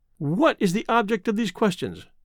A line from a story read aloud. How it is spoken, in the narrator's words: she asked sharply